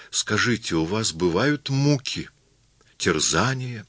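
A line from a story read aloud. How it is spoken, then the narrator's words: Soulful, probing. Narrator (Russian): Алексей Спиридонович, проникновенным голосом начавший допытываться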